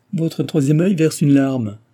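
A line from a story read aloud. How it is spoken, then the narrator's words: Fortune-teller laughing. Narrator (French): dit en riant la cartomancienne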